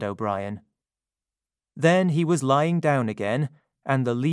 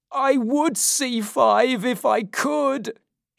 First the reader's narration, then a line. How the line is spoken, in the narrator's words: cried